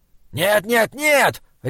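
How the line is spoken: Barking shout. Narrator (Russian): рявкнул Таузер

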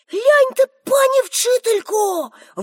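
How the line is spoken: Exclamation. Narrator (Ukrainian): вигукнув

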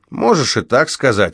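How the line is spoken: Snorting. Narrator (Russian): фыркнул Кейси

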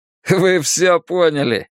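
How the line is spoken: Laughing. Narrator (Russian): рассмеялся Дэйв

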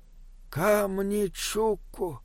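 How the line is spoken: Horrified breathless gasp. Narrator (Russian): выдохнул Бинабек, не отводя глаз от ужасного зрелища

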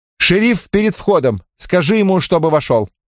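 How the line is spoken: Sharp. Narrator (Russian): Он резко сказал Молтону

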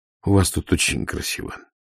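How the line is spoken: Barely audible. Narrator (Russian): чуть слышно сказал Ваймс

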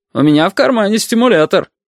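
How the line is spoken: Loud, cheerful father. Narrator (Russian): громко, даже весело сказал отец

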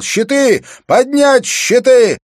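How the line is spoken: Shout. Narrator (Russian): закричал

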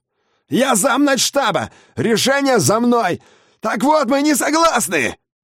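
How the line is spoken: Yelled. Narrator (Russian): заорал он

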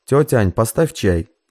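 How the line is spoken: Shouting again, no longer smiling. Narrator (Russian): Уля перестала улыбаться, снова крикнула

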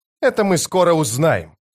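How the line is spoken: Sharp bark. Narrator (Russian): рявкнула она

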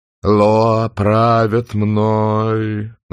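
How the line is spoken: Chanting, singsong. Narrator (Russian): нараспев начал он

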